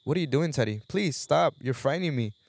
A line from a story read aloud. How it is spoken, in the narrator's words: cried